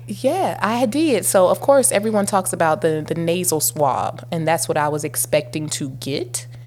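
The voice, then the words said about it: Froggy, congested voice. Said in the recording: “I have a sinus infection ... my voice sounds a little froggy in places, that's because I'm still getting over sinus congestion ... sound weird”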